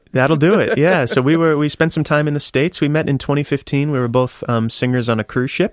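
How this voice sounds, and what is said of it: American accent. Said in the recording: “you do have an accent. You've moved here from Boston”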